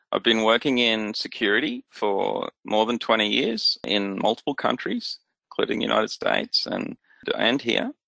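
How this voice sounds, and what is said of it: Australian accent. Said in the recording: “I'm based in Australia, as you can probably tell by the accent.”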